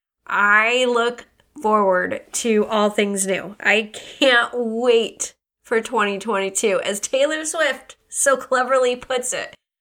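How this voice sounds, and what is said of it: Voice sounds congested, sick. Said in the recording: “Aside from the cold, you can probably hear in my voice”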